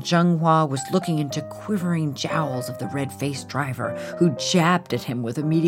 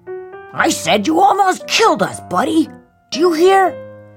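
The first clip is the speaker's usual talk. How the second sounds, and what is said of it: Angry yelling. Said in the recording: “I'm yelling”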